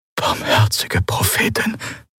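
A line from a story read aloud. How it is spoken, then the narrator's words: Whisper. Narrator (German): flüsterte Quailor neben ihm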